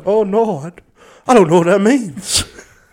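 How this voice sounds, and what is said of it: Confused Elvis Presley-style voice. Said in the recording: “he sounds like a confused Elvis Presley”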